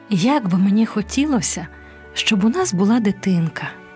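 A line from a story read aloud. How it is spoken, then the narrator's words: Sad sigh. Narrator (Ukrainian): сумно зітхнула пані Пінг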